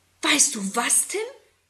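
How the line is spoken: Excited question. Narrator (German): fragt Susi aufgeregt

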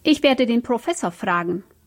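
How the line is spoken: Growling. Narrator (German): knurrte Frau Haneck

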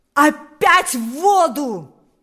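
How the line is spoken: Shouting. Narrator (Russian): закричал теперь уже сам Паисий

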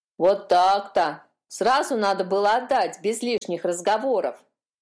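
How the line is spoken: Grumbling. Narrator (Russian): проворчала та

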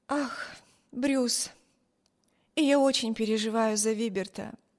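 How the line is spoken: Sighed. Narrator (Russian): вздохнула Эми

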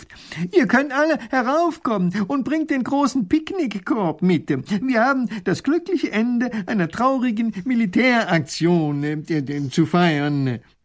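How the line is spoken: Professor calling out. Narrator (German): Professor Pfiffikus ruft

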